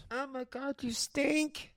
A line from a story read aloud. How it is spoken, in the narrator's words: She laughed